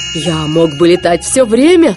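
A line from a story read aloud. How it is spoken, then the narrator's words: Loud laughter. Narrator (Russian): расхохотался СМИ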